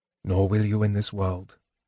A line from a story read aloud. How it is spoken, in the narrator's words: Tanis murmured